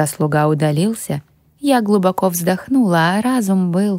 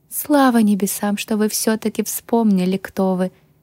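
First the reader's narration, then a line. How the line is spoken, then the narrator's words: Relieved sigh. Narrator (Russian): облегченно вздохнула Милена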